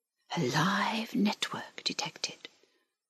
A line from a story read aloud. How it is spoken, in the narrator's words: whispered the link